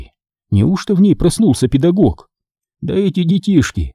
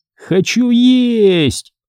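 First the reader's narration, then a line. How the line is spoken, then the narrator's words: Small animal yelling. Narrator (Russian): вопило маленькое животное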